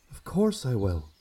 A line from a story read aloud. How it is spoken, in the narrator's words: whispered